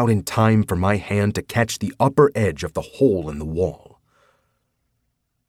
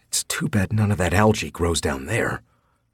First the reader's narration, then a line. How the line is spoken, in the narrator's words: I mumbled